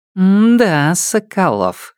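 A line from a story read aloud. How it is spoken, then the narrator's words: Sly, smiling. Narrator (Russian): ехидно улыбнулась мне Кузя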